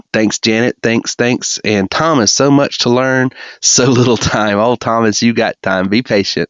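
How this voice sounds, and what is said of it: Southern American accent. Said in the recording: “my southern dialect”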